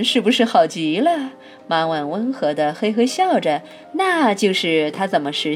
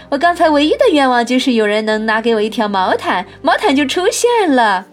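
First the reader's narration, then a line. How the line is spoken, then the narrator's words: Shout. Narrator (Chinese): 梅格喊了出来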